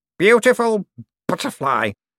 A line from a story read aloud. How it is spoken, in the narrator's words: Cosmo slurred